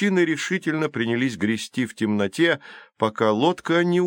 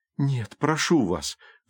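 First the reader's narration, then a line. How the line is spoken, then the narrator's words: Pleading. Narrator (Russian): взмолилась Калипсо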